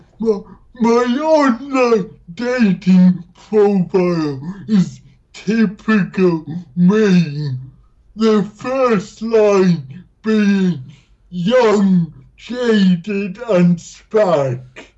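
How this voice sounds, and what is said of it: Speaks with a noticeable accent. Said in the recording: “Your accent is super awesome”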